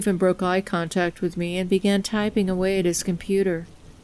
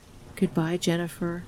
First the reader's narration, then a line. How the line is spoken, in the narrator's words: whispered hoarsely